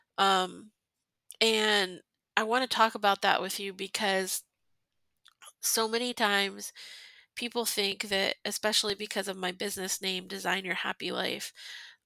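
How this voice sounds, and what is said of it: Stuffy, congested voice. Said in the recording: “You might be able to tell from my voice. I'm real stuffy right now. ... I've been sobbing for like an hour and a half now.”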